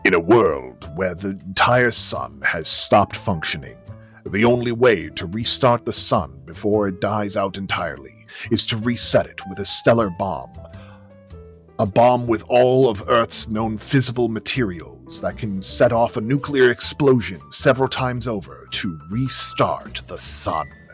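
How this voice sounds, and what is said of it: Dramatic movie trailer narrator voice. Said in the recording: “I'm going to go into trailer voice”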